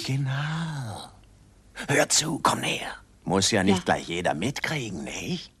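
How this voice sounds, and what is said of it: Dubious whispering character voice. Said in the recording (German): “diese dubios flüsternde Dealerfigur”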